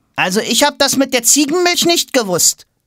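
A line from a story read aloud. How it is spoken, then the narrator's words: Defensive. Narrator (German): springt Toms Banknachbar für seinen Freund in die Bresche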